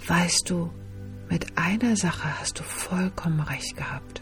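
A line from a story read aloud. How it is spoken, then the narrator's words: Quiet, very serious. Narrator (German): wurde die freundliche Seele sehr ernst und sagte mit leiser Stimme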